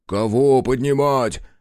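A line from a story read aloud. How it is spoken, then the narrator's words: Deep bass voice. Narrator (Russian): пробасил Кондрат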